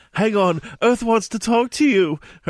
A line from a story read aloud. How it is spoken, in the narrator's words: Hermione screamed